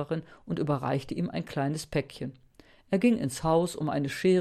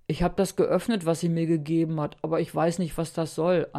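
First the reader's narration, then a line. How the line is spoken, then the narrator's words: Plain. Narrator (German): antwortete er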